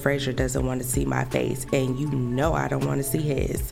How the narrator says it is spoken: Scotland said with a laugh

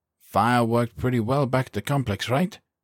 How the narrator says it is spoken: he asked hope in his lightly accented voice

